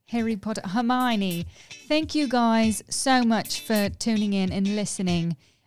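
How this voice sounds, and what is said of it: Put-on English accent. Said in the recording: “can we sign off by doing your there. English accent? ... I'm doing a different accent”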